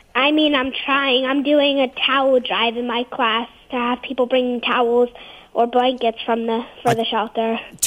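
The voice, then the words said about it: Slight New Jersey accent. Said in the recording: “That was in a little bit of a Joyzy accent you had there.”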